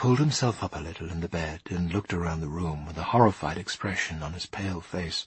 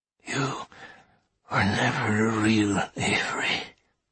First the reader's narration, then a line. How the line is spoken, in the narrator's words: he hissed